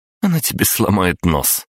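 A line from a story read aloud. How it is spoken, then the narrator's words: Short laugh. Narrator (Russian): коротко рассмеялась Кристина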